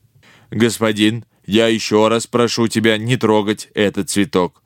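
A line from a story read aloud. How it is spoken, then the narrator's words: Displeased metallic droning. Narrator (Russian): недовольно прогудел железный человек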